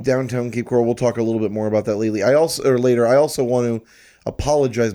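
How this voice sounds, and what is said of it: Slightly hoarse voice. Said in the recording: “My voice is a little hoarse. ... that's probably rough to listen to”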